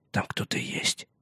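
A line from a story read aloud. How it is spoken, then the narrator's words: Whisper. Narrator (Russian): прошептал он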